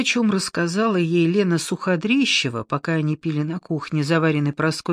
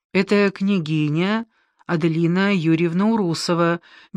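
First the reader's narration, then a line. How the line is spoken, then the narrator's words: Serene calm voice. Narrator (Russian): безмятежным голосом произнесла Адка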